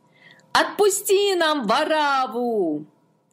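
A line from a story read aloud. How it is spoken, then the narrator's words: Crowd shouting. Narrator (Russian): Толпа закричала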